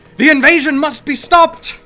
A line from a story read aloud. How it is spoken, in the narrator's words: shouting to his aide as he ran